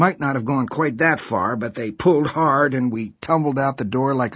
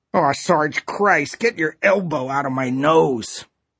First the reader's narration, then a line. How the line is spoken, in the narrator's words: Huddy yelled in a muffled, furious voice